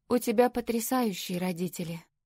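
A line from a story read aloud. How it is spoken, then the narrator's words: Plain. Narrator (Russian): сказала Лори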